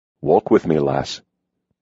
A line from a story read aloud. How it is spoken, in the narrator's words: he said softly